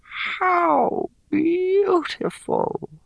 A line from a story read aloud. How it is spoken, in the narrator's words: Garlatha sighed